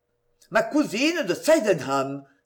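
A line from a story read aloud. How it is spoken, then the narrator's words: Exclaiming. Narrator (French): s'écria-t-il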